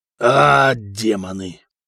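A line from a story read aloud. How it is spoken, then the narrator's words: Growl. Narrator (Russian): прорычал Сигурд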